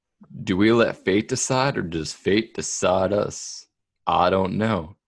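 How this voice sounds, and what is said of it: Bad Matthew McConaughey impression. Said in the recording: “terrible Matthew McConaughey impression”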